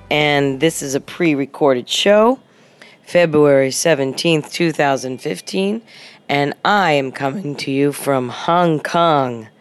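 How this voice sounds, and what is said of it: Voice sounds different from a cold. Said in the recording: “my voice sounds a little different ... a very deep and twisted illness. Basically, just a cold.”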